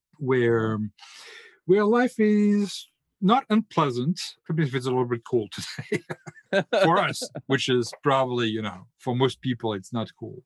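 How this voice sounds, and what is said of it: French accent. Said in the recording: “my accent is a bit of a treason for me, I'm French”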